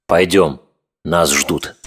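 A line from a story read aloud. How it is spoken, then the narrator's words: Calm, certain. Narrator (Russian): сказал он так спокойно, будто все уже было решено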